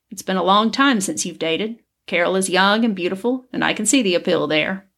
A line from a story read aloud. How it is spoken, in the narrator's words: he chuckled